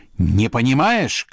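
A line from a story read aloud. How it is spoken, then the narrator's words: Man shouting. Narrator (Russian): кричал князь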